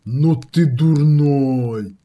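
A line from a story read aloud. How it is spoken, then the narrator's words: Drawling. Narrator (Russian): протянул Каратун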